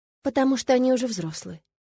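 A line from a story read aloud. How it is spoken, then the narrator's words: Calm. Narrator (Russian): спокойно ответила я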